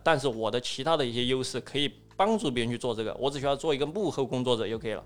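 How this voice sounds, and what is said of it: Southwestern Chinese regional accent. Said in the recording (Chinese): “我说话是有地方特色的 ... 西南地方的口音 ... 我有西南地方的口音”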